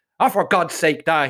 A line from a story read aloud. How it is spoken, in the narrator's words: snaps